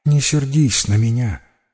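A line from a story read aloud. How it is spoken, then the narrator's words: Sigh. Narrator (Russian): вздохнула она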